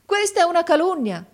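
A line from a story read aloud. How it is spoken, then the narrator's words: Exclamation. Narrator (Italian): esclamò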